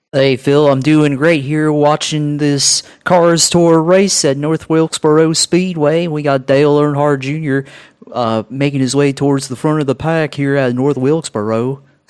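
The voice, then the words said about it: Sounds like Hank Hill. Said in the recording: “you sound like Hank Hill and you should be selling me propane”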